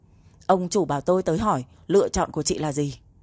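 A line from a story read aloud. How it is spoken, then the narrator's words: Angry. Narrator (Vietnamese): cô Minh Thành tức giận nói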